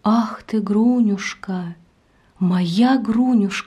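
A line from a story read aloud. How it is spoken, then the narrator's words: Deeply moved. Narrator (Russian): сказал глубоко растроганный Потап Максимыч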